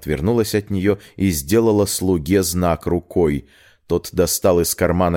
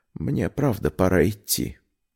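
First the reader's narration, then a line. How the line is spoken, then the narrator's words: Quiet, after a pause. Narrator (Russian): Она замолчала, а потом тихо добавила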